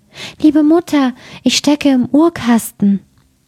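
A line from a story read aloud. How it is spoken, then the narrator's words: Delicate voice calling. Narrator (German): rief eine feine Stimme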